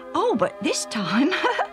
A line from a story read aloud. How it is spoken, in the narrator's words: Alf laughed